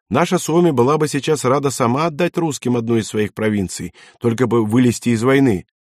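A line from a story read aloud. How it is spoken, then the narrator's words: Cheerful smirking. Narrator (Russian): весело ухмыльнулся Йосси Пеккало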